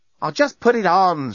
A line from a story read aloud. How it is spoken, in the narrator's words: shouted Lucy